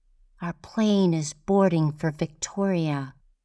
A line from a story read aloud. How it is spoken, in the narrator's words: There is a ringing in my ears and I hear Molly saying in a muffled voice